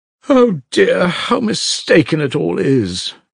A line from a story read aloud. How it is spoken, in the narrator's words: Madame Hochlakov cried again